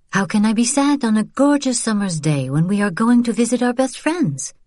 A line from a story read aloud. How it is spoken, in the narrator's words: Vian smiled a bit too brightly